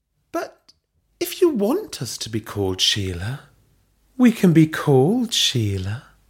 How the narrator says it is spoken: Belinda purred

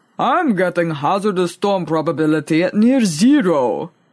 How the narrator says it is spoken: he rumbled in reply

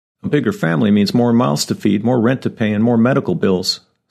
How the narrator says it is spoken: Sorna snapped

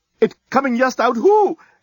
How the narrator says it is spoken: exclaimed the head reporter

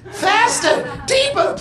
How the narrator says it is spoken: pleaded Roger

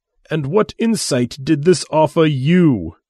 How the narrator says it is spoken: He asked, with a tightly controlled voice

